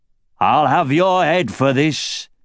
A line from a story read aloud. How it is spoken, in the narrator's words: roared